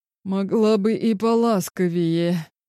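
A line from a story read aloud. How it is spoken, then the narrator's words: Choked wheeze. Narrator (Russian): наконец просипел придушенно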